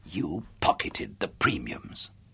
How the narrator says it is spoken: I whispered, my voice failing me suddenly

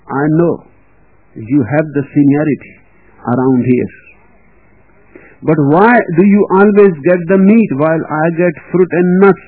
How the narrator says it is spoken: he asked

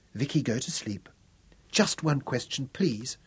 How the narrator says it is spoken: whispered Victoria

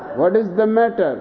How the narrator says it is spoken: asks Sally

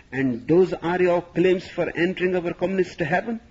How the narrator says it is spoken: He spluttered

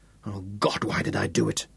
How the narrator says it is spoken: He whispered aloud

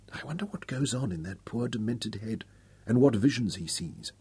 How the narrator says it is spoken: Rayanne whispered

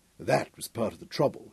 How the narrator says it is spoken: chuckled, huskily sexy

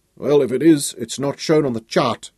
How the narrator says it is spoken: grumbled

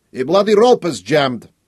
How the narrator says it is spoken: Boris yelled back

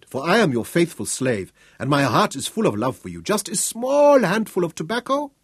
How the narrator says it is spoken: Piri pleaded

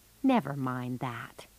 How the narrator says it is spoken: he said gently

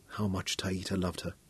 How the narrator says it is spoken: Royan murmured, and there was envy in her voice

